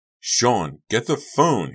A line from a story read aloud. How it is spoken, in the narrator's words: he yelled